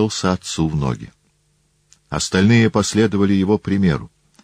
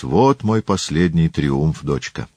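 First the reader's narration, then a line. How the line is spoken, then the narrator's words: Sad father. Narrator (Russian): отец грустно произнес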